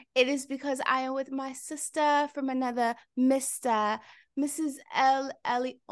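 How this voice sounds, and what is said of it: Polished put-on accent. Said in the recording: “why am I talking like this today? ... How is my accent today? ... I am loving the accent. It's very polished.”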